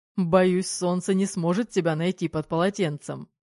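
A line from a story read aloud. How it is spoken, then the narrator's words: Laughing. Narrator (Russian): рассмеялся Марк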